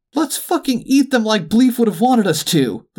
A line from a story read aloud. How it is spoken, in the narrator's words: the duck practically screamed